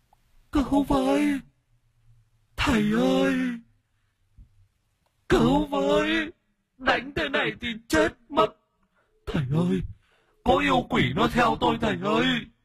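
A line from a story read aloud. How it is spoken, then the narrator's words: Wailing, sobbing. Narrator (Vietnamese): Thím Thu lăn ra sân, cứ ngả ngả nghiêng nghiêng rồi gào khóc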